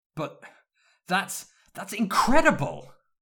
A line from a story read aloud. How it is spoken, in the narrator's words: James shouted, the last word with a huge grin on his face